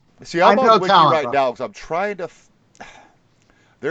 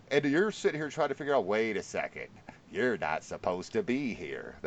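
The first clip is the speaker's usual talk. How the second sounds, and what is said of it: Imitates another person's voice. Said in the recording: “my cheesy Jack Nicholson impression ... It was pretty good ... No, it was horrible.”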